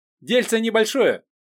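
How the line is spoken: Joyful proclaiming. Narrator (Russian): радостно вещал тот

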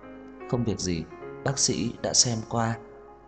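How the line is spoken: Weak, gentle, smiling. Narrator (Vietnamese): Sắc mặt cô tái nhợt, dịu dàng mỉm cười, thật yếu ớt nói

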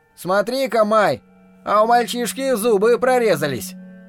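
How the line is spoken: Shout from crowd. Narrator (Russian): крикнули из толпы

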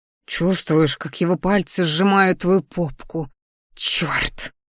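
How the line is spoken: Growling. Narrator (Russian): Рыкнула, понимая, что мне правда нравится

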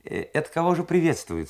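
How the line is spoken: Plain question. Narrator (Russian): спросил Ваньков

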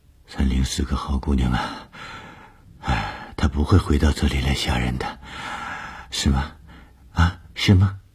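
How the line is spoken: Murmuring. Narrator (Chinese): 吴医生喃喃地说

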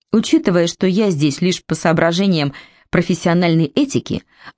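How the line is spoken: Clipped, strong English accent. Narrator (Russian): отрывисто начал Стэндиш с сильным английским акцентом

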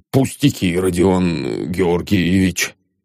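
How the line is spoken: Mumbling. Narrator (Russian): пробормотал он

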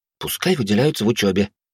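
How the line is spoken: Plain. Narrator (Russian): сказала Вилли

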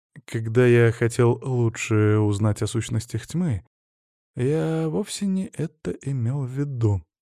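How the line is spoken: Quiet muttering to self. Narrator (Russian): тихо сказал он сам себе, чтобы никто не услышал

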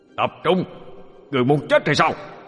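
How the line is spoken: Loud shout. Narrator (Vietnamese): Linh Nhi quát lớn

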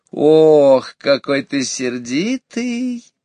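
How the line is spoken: Fox's sing-song affectionate drawl. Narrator (Russian): таким же певучим, ласковым голосом протянула лисица

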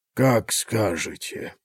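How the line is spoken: Muttered. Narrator (Russian): пробормотал он

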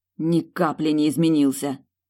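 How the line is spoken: Irritated, spat out. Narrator (Russian): Раздраженно выплюнула

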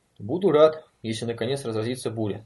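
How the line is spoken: Plain. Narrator (Russian): сказал он Мэтчфилю

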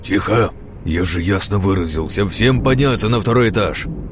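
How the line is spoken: Roar. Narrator (Russian): взревел

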